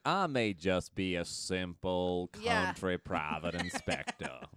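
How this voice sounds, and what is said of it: Exaggerated put-on Southern drawl. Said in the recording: “Daniel Craig with a southern accent ... He really does sound like Foghorn Leghorn ... It sounds so fake ... not very good.”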